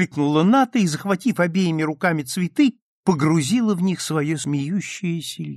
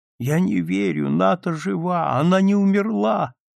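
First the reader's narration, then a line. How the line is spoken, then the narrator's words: Sobbing. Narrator (Russian): рыдала Евдокия Назаровна Торгушина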